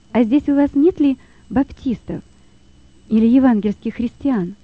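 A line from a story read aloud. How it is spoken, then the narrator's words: Plain. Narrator (Russian): спросил Лёва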